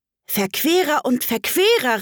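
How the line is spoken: Called out. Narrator (German): rief Alice

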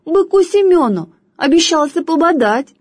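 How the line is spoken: Squeaky voice. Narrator (Russian): пискнула другая

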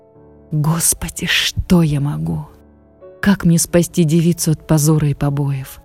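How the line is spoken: Weak whisper, barely moving lips. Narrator (Russian): зашептал, еле шевеля разбитыми губами, отец Иоанн

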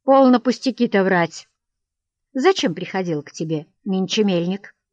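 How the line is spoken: Dry, curt. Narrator (Russian): сухо сказала супругу

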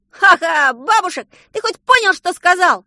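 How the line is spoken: Ecstatic yelling. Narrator (Russian): завопил совершенно счастливый Саша, который уже просчитал, что школы сегодня не будет

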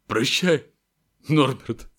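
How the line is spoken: Breaking, strained voice. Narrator (Russian): срывающимся голосом выдавил из себя Хагрид

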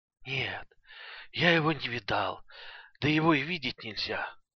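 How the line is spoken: Hoarse weak voice. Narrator (Russian): отвечал Илюша сиплым и слабым голосом, звук которого как нельзя более соответствовал выражению его лица

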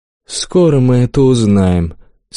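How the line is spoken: Calm reply. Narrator (Russian): спокойно ответил монах

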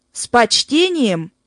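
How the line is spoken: Indignant exclamation. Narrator (Russian): возмущенно воскликнул Марти

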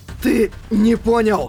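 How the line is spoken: Weak wheeze. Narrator (Russian): Прохрипел Юджио

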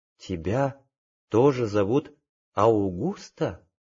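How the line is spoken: Whisper, then full voice. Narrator (Russian): шептала, потом повторила уже в полный голос

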